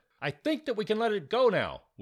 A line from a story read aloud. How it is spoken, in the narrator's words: Will yelled to them